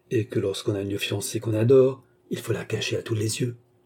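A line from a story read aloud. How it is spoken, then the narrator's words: Murmured. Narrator (French): murmura Armand qui se prit à songer à Jeanne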